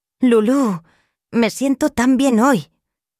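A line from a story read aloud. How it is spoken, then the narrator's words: Grandmother exclaiming. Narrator (Spanish): exclamó su abuela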